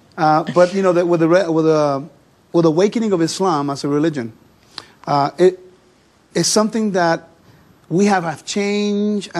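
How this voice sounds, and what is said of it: Noticeable accent, fast speech. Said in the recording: “I have an accent. I talk fast. I try to slow down. It just doesn't work.”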